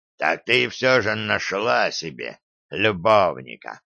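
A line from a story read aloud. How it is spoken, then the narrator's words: Nauseating bark. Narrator (Russian): рявкнул он тоном, вызвавшим у меня приступ тошноты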